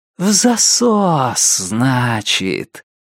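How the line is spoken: Velvety singsong. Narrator (Russian): пропел Лестер своим новым бархатным голосом

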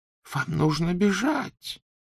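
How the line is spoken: Whisper. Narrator (Russian): прошептала профессор МакГонагал

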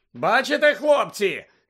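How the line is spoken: Shouting over crowd noise. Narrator (Ukrainian): закричав Візлі, пересилюючи галас юрби

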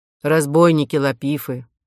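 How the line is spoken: Menacing. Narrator (Russian): грозно произнес возница

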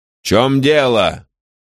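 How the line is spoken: Sharp shout. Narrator (Russian): Каприкорн так резко крикнул

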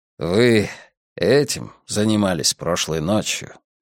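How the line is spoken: Almost tender question. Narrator (Russian): почти ласково спросил он

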